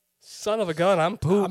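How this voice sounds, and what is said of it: Put-on Midwestern, Canadian-sounding accent. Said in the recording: “adopt like a Midwestern accent ... That was more Canadian, I think.”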